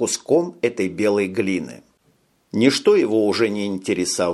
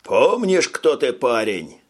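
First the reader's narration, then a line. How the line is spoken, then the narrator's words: Shouted. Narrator (Russian): крикнул ему какой-то Канзас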